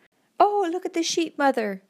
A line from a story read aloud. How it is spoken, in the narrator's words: exclaimed